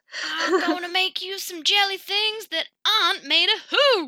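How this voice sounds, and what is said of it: Put-on unidentified accent. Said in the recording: “I don't even know what accent that was, but it just came out so naturally”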